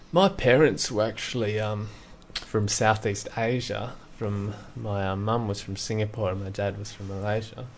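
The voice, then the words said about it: Broad Australian accent. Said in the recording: “My accent is a little broader than average ... I'm quite proud of my accent because it identifies me with the place I grew up in”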